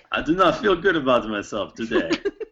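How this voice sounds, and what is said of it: Made-up skeleton character accent. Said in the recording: “What is this accent from a skeleton? ... It is a skeleton accent. ... That sounds like RoboChocula.”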